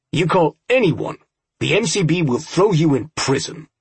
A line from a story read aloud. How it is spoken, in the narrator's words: Myers snapped